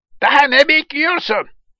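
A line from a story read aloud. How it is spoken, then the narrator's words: Eaglet shouting impatiently. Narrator (Turkish): diye sabırsızlıkla bağırdı kartal yavrusu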